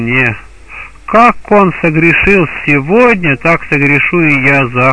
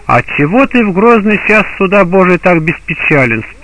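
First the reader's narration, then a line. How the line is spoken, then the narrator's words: Plain. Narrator (Russian): спросили они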